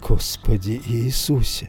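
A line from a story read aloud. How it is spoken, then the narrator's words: Whisper. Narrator (Russian): прошептал я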